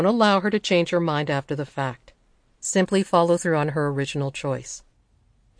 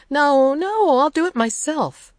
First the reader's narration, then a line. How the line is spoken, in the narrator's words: child whines